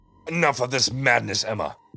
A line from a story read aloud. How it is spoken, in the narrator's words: he roared